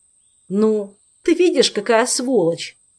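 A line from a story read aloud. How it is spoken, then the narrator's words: Groaning in pain. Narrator (Russian): простонал, все еще баюкая пострадавшую руку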